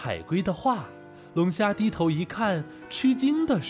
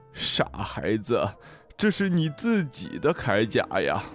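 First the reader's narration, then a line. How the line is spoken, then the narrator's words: Laughing. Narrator (Chinese): 笑着说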